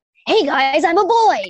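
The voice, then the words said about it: Raspy generic anime boy voice. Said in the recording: “that generic anime boy voice ... It's like that raspy kind of voice”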